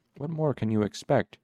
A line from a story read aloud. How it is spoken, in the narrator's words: she asked quietly